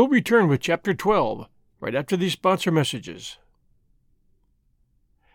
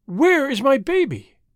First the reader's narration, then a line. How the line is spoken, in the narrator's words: she cried